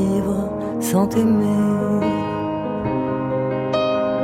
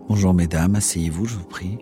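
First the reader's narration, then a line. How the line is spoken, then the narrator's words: Plain. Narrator (French): dit Husson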